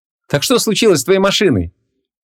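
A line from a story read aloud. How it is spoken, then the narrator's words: Cheerfully asked again. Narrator (Russian): весело переспросил шофер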